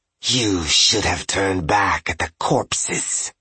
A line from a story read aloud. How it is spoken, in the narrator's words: she hissed